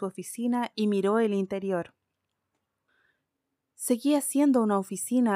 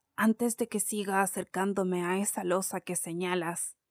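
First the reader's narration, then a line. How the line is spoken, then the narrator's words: Plain. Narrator (Spanish): dijo Scrooge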